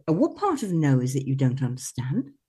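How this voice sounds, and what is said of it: Put-on posh voice. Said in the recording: “it was so much like better with your accent ... it's me doing my posh Lady Muck thing.”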